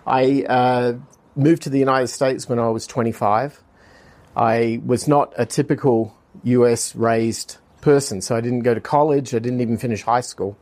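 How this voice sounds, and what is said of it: Australian accent. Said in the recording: “I'm originally from Australia, and my accent kind of gives that away.”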